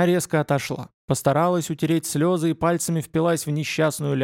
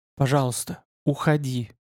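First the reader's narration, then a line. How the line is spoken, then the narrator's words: Pleading whisper. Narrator (Russian): прошептала Делла умоляюще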